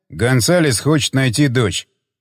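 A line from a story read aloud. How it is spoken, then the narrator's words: Plain. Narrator (Russian): ответил Джефф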